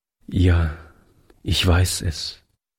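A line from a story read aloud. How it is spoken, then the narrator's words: Sad young man's reply. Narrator (German): entgegnete der junge Mann traurig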